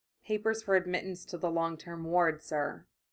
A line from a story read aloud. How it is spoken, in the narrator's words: the Meadowitch said quietly